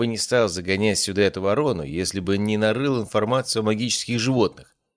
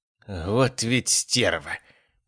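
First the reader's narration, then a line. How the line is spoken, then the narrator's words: Hissing. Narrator (Russian): прошипел Мот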